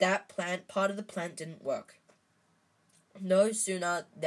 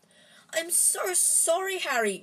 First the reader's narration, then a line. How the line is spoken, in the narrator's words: she wailed